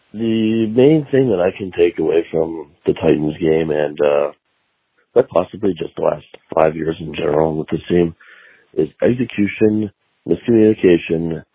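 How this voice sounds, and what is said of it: Hoarse, sick, failing voice. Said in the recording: “I'm sick, and obviously, as you can tell, my voice is going.”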